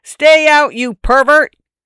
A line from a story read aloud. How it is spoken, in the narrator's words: I yelled in a voice not mine